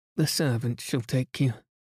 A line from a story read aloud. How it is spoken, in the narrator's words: she murmured